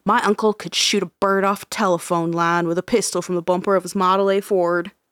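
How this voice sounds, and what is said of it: Put-on country bumpkin accent. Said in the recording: “Was it the accent? I probably did it real well. ... Country bumpkin”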